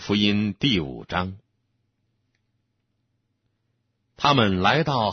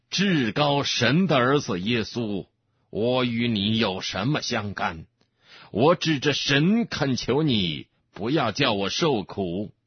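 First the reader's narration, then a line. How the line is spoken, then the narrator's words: Loud crying out. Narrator (Chinese): 他大声呼叫说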